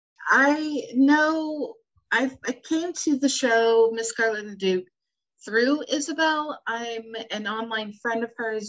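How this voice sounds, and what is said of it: American accent. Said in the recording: “I am from the United States, as you can tell by my lovely accent.”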